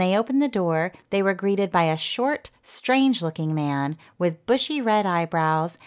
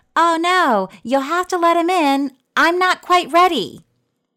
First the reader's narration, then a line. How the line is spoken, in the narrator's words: From down the hall, their mom yelled